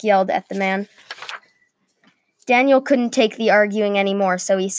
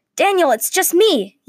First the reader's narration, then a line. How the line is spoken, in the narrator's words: yelled Zack from the floor of the watchtower